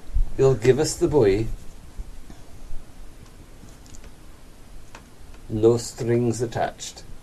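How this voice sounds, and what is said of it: Convincing put-on Russian accent. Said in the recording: “accent war? ... The Russian, yeah. ... Your Russian accent is so much better than mine.”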